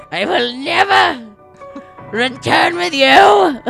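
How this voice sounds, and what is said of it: Rough, sick-sounding character voice. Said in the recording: “My voice is kind of sick, so the snow voice is actually very good.”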